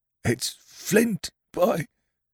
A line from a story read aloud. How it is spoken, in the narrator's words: cried Mary